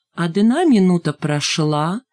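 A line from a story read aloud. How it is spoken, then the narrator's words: Happy singsong. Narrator (Russian): счастливым голосом пропела Шмакова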